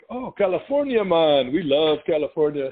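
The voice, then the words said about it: Put-on Jamaican accent. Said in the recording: “it's the full Jamaican accent.”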